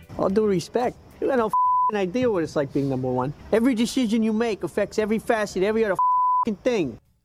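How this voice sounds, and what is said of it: Tony Soprano impression. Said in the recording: “he does a impression of Tony Soprano ... It's actually pretty good. ... his Tony Soprano impression. So it's a pretty good impression ... I don't think it's a good Tony Soprano impression. ... it's more Pesci.”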